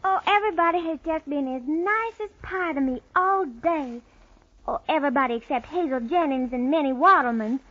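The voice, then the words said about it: American southern accent. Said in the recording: “your southern accent.”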